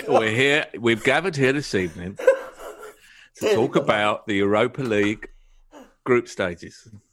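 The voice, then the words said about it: Imitates another person's voice. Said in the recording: “That's a very good Michael Caine impersonation.”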